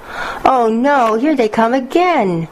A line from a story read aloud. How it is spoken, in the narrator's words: she moaned